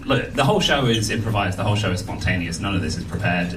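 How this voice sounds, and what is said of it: Speaks with his own accent. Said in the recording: “This is my accent. This is how the whole show will be conducted.”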